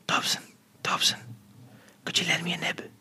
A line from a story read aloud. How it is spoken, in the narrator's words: I put a hand in front of my mouth and whispered